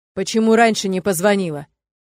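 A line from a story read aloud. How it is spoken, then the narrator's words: Angry growl. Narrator (Russian): зло рычу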